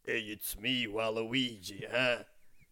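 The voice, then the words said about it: Impression of Waluigi's cartoonish voice. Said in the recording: “I'll do an impression for you now.”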